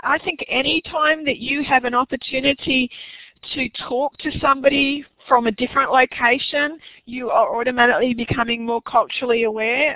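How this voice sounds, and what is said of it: Hoarse, fading voice. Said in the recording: “I'm losing my voice now.”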